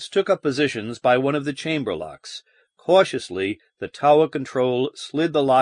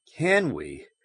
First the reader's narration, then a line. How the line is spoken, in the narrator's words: Baines murmured thoughtfully